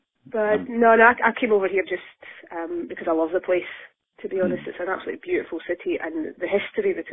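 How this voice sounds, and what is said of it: Scottish accent. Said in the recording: “you're in fact from Edinburgh originally, with a wee Scottish accent”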